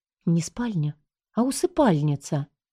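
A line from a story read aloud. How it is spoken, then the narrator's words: Sighing. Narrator (Russian): вздохнула Джул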